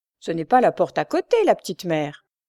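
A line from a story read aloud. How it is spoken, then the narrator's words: Sneering fruit seller. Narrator (French): ricana le fruitier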